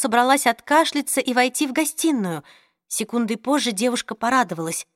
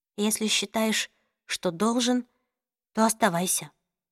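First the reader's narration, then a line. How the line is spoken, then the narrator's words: Uncertain. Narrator (Russian): неуверенно ответила Джослин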